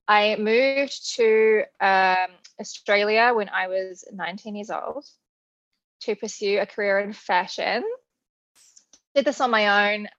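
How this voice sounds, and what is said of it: New Zealand accent. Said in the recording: “I was born in New Zealand, if you can't tell from the accent.”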